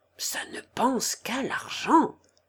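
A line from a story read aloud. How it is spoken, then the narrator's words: Murmur. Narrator (French): murmura Élie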